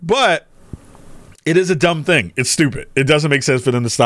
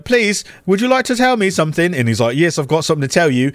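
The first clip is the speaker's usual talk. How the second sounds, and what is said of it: Put-on accent, playing up politeness. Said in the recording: “I don't know why I use that accent”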